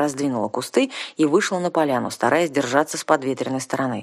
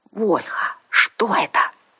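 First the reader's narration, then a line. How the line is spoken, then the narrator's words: Whisper. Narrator (Russian): шепнула Арсана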